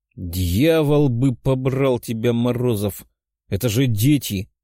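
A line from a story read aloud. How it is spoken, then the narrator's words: Growling, pinned down. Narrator (Russian): прорычал я из-под колена фамильяра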